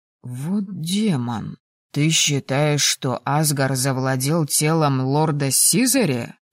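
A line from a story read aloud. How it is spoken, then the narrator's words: Hoarse rasp. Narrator (Russian): Прохрипел он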